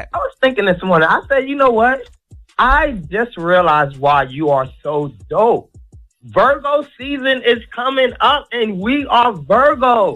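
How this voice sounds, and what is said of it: Tired, slightly sad-sounding voice. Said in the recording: “you sound sad a little bit... I'm tired”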